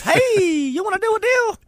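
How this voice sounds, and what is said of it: Squeaky excited high voice. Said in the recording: “I'm like squeaky, like an excited mouse”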